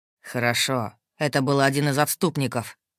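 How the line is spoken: Displeased grumbling mage. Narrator (Russian): проворчал маг, явно недовольный моим поведением

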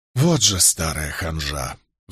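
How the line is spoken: Sigh. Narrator (Russian): вздохнул я

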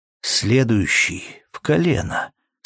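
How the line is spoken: Calm remark. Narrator (Russian): спокойно заметил

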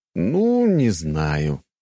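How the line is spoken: Drawn-out, smiling. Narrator (Russian): протянул я и улыбнулся

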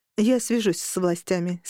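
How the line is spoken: Plain. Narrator (Russian): сказала я

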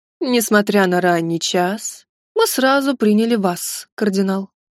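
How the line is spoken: Lazy condescending drawl. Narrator (Russian): заговорил Алексиос III Ангелос ленивым вальяжным голосом, словно делал нам одолжение

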